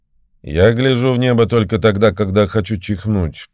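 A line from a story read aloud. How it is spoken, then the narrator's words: Grumbled. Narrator (Russian): проворчал Базаров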